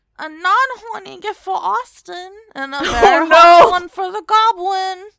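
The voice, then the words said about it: Baby voice. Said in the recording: “I'm gonna do a good baby voice ... She's doing everything in the baby voice.”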